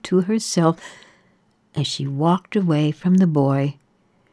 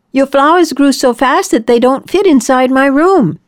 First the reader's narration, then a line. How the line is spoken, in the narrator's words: yelled to her